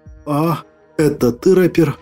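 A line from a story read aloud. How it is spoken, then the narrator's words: Strained, numb-tongued. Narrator (Russian): С трудом двигая деревеневшим языком, выдавил я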